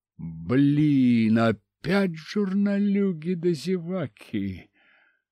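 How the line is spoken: Groan. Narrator (Russian): Простонал я

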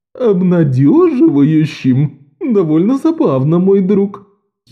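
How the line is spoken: Giggle. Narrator (Russian): хихикнул повелитель плоти

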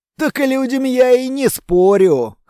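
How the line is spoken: Short chuckle. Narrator (Russian): хохотнул долговязый

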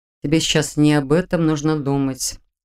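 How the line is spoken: Calm, confident declaration. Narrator (Russian): спокойно и уверенно заявил он

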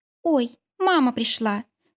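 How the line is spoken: Tender singsong. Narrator (Russian): ласково пропела Олька

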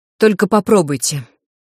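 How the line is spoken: Sharp, cutting retort. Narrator (Russian): резко припечатала я

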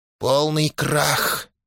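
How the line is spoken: Barely audible whisper. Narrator (Russian): прошептал еле слышно

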